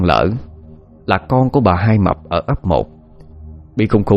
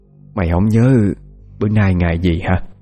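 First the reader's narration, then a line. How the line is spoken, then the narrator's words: Sighing. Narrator (Vietnamese): thở dài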